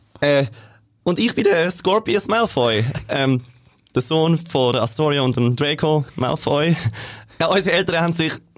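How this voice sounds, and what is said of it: Speaks in regional German dialect. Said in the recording (German): “Mundart-Version ... Jeder in seinem Dialekt.”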